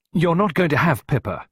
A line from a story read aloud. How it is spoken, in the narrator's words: Clarissa told him firmly